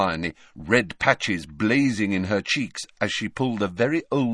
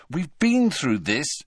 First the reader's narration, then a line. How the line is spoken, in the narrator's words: said Harry crossly